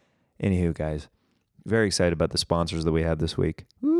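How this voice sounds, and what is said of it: Usual voice. Nothing is said of it.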